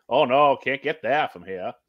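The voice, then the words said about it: Put-on New England accent. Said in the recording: “old SNL skit that was actually set in New England. You know, like, you know, old people giving directions ... the accent is good”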